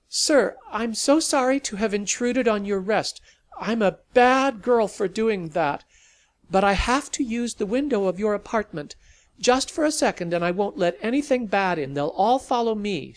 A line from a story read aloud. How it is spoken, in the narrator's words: she called out